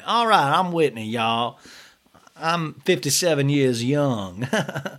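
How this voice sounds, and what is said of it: Southern twang, imitates another person's voice. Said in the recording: “I'm going to put a little Miss Pat twang.”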